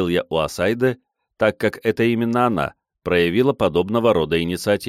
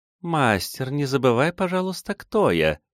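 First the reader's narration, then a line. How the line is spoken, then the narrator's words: Quiet melodic young woman. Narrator (Russian): тихим и мелодичным голосом произнесла девушка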